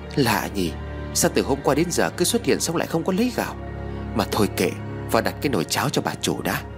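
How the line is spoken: Muttering. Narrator (Vietnamese): miệng lẩm bẩm nói

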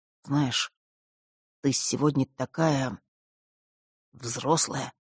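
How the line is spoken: Slightly husky voice. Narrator (Russian): немного севшим голосом произнес он

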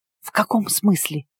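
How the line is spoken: Whispered reply. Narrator (Russian): Почему-то тоже шепотом ответила я

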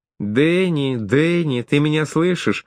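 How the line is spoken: Calling out. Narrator (Russian): Даша взывая

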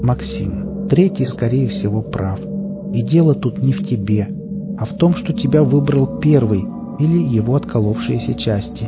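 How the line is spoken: Gentle interjection. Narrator (Russian): мягко вставил второй

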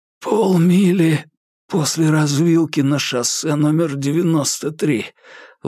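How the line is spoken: Breathy exhale. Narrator (Russian): выдохнул Курц

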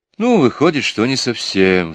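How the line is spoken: Sighing. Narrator (Russian): вздохнул Джуфин

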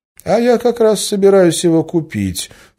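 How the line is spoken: Plain. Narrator (Russian): сказал Гессер

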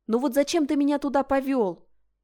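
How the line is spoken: Reproachful exclamation. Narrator (Russian): воскликнула с упреком

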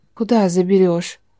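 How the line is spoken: Hoarse question. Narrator (Russian): спросила осипшим голосом

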